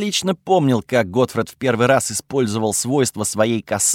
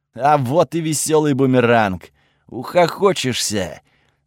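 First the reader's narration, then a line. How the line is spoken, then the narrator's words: Laughing. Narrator (Russian): засмеялся Готфред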